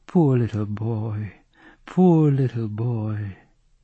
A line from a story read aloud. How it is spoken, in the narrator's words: My mother, looking very pale, and her lips tirelessly murmured